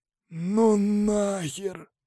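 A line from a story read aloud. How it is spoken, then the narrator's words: Exhausted breathless exhale. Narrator (Russian): выдохнул Тимур, который уже просто лежал пластом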